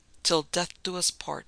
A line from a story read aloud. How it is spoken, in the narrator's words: she murmured